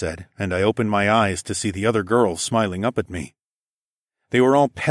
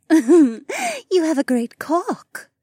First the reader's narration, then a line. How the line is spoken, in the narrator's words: Becca giggled